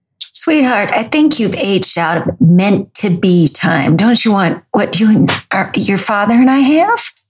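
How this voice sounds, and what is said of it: Sweet, pushy Buffalo accent. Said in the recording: “Sweet, but pushy, with a Buffalo accent.”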